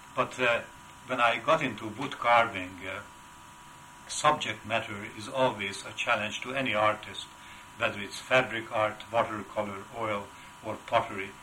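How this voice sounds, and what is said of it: Heavy Hungarian accent. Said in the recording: “my roots are unmistakably Hungarian, as is my heavy accent after so many years”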